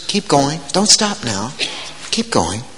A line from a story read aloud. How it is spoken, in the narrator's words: He whispers